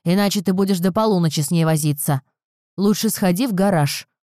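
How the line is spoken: Grumbling father. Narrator (Russian): проворчал отец Розы

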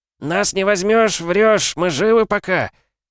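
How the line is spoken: Falsetto yell, rock-singer style. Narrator (Russian): Фальцетом заорал микроб, и получилось у него почти как у Кипелова

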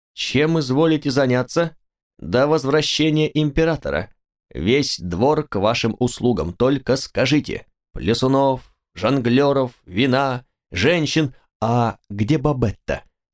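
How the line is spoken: Plain. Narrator (Russian): спросил я

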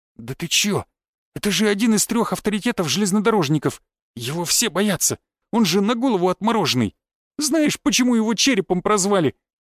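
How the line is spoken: Sobbing, despairing question. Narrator (Russian): всхлипнув, спросил Воробей, который явно уже попрощался с жизнью

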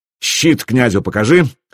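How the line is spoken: Barking. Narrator (Russian): рявкнул я

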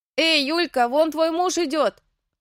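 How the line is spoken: Child's sudden yell. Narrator (Russian): завопил вдруг кто-то из детей

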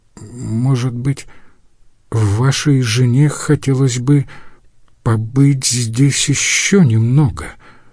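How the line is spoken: Timid stammering. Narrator (Russian): робко заикаясь, проговорил Лаурьен

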